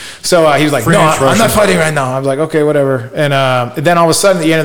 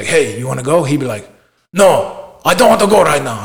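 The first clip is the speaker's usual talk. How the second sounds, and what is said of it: Weak attempt at Russian accent. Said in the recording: “I can't do his accent. I think that was Russian. ... Yeah, I think it was kind of Russian”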